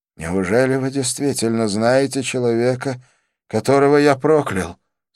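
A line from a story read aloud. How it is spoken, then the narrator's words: Trembling voice. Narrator (Russian): спросил он дрожащим голосом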